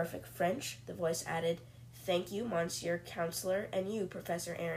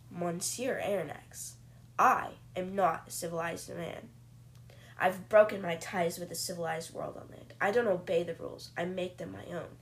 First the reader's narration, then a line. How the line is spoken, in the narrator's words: the captain says angrily